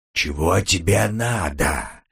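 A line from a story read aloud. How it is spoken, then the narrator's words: Growling. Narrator (Russian): прорычал Перес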